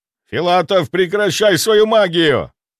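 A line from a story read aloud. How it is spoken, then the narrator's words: General shouting. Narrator (Russian): прокричал генерал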